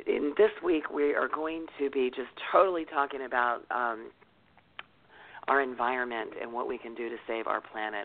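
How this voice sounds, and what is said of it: Hoarse, partly lost voice. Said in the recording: “My voice is a little bit gone”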